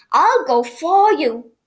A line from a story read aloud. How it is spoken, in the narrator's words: cried Noddy